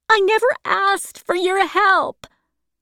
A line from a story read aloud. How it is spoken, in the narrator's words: Catherine cried